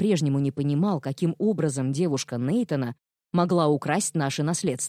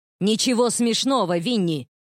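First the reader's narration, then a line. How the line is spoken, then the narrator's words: Barked. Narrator (Russian): рявкнул я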